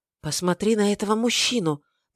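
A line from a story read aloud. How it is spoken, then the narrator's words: Whisper. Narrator (Russian): прошептала Арсола Джиневре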